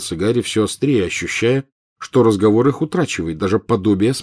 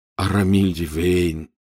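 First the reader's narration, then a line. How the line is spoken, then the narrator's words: Quiet answer. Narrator (Russian): негромко ответил Рон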